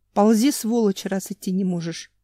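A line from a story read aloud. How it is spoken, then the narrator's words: Growled. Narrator (Russian): Семен еще и добавил, прорычал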